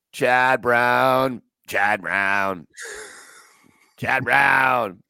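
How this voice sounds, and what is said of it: Imitates another person's voice. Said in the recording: “That's the Pat McAfee impersonation.”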